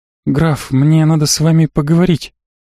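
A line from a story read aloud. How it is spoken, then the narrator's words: Slightly hesitant. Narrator (Russian): немного неуверенно произнесла Риита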